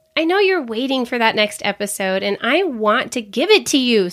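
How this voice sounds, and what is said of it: Slightly weird-sounding voice. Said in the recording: “I'm finally feeling better after being sick for the last, 11 days ... You might be able to tell my voice is a little bit weird today”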